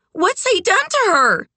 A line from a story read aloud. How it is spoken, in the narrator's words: one woman shriek